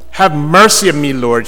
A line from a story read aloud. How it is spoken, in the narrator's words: she cried